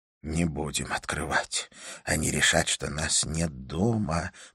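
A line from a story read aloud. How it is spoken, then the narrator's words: Trembling mutter. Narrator (Russian): пробормотал Фред, уже не справляясь с бившей его дрожью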